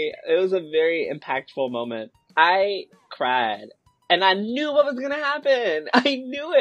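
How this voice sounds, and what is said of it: Usual voice. Nothing is said of it.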